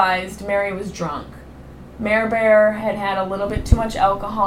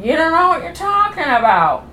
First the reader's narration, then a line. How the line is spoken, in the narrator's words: But Mary felt the need to yell out